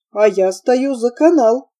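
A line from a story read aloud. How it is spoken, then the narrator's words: Shout. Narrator (Russian): крикнул он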